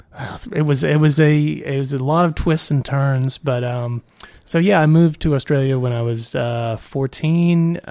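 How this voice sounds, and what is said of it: New Orleans American accent. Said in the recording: “that's the accent ... from New Orleans”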